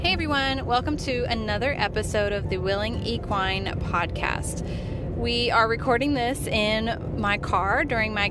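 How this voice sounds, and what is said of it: Tired, monotone, lackluster voice. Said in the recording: “my voice is a little bit under the weather. I had been talking all day, and so I'm a little bit monotone and lackluster in this podcast ... I was very tired during this episode”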